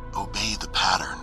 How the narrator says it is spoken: said in a low voice

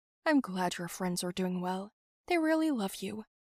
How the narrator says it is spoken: mom said

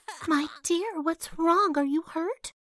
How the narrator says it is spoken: the mother duck demanded in a worried voice

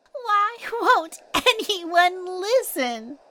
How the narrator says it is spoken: little Zoya cried

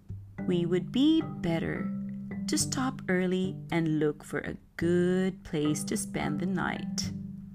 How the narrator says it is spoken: said

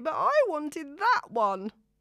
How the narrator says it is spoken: whines Zoe

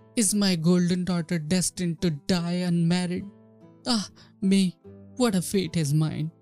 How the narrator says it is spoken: the queen pines away with grief and cries

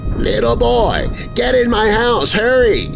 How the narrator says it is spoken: the lady behind the screen door yelled

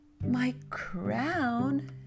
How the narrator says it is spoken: the king moaned

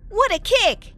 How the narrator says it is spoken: I exclaimed in time

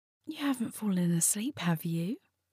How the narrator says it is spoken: She kept her voice light and playful

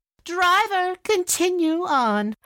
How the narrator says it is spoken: her stepmother called out

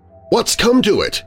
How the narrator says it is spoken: he said

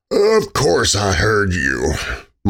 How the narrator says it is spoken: Michael said in a muffled voice

